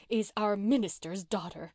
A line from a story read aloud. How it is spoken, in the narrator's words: groaned one ancient maiden